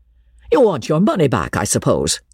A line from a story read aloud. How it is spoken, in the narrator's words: said George, with a sneer